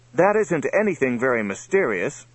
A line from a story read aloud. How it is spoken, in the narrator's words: said Johnny, pointing excitedly